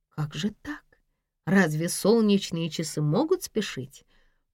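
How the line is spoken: Surprised mutter. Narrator (Russian): пробормотала она удивленно

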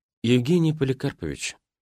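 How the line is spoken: Sigh. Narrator (Russian): вздохнул я

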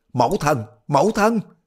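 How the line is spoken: Shouting. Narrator (Vietnamese): Đoàn Dự la lên

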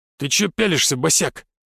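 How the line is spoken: Middle-aged man barking. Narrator (Russian): рявкнул мимо проходящий мужчина лет 40

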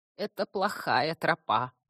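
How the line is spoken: Creaky voice. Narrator (Russian): проскрипел корневик

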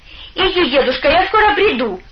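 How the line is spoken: Shouted. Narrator (Russian): крикнула она

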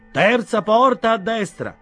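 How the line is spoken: Said aloud. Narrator (Italian): disse poi a voce alta

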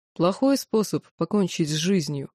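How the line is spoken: Sarcastic. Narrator (Russian): язвительно произнес темный

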